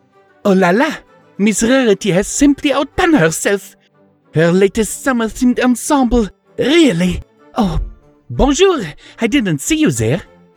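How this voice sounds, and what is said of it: Thick put-on French accent. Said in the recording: “speaking in a thick French accent”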